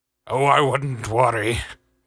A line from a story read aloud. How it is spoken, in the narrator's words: Wallaby grunted